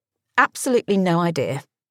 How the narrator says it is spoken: laughed Pippa

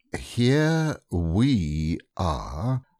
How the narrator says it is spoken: said Rabbit, very slowly and carefully

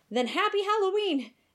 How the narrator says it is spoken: Aesop shouted

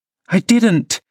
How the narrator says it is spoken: cried, recovering her speech

